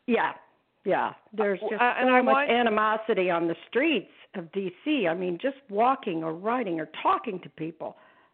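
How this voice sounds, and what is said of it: Slightly hoarse voice. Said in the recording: “I'm still a little hoarse.”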